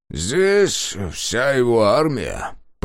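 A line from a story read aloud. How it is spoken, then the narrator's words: Grumbling. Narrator (Russian): проворчал Дакар Пуджилио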